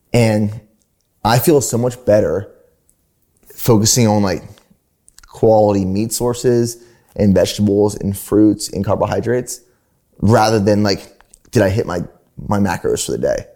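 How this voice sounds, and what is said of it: Speaks with a distinct accent. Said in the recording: “You gotta love that accent”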